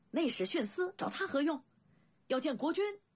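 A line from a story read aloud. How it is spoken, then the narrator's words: Loud angry rebuke. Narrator (Chinese): 一个世子高声怒斥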